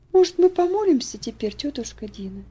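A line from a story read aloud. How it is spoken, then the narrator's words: Soft question. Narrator (Russian): она мягко спросила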